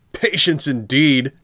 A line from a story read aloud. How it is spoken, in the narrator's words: shouted his master